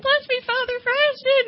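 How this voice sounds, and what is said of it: Weird little girl voice. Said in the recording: “He changed his voice ... He'd put on this weird little girl voice ... talk like a little girl”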